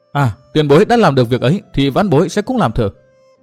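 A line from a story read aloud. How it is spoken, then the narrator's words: Eager cry. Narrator (Vietnamese): Từ Mã Minh reo lên một tiếng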